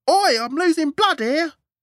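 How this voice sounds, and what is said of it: Shouted Cockney accent. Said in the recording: “shouted, writhing in agony on the grass, reverting to his usual Cockney accent.”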